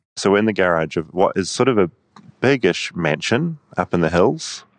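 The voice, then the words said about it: New Zealand accent. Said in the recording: “New Zealand. ... Oh, New Zealand, I thought it was an English accent.”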